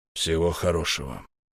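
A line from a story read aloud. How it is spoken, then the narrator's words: Quiet. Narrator (Russian): тихо проговорил он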